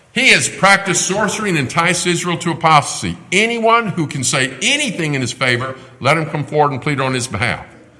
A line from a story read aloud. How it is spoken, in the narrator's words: a herald cried